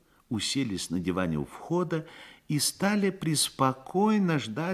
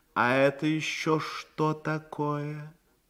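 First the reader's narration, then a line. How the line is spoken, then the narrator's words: Tired reproachful question. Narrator (Russian): Лорд устало с упреком спросил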